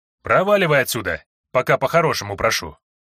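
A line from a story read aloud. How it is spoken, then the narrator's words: Rough, almost masculine voice. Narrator (Russian): грубым, почти мужским голосом ответила заведующая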